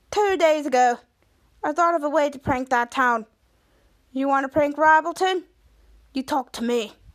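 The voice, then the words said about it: Put-on Australian accent. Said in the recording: “says in an Australian accent”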